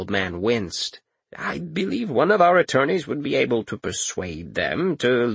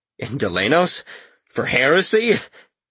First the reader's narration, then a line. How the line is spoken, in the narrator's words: Karis barked a laugh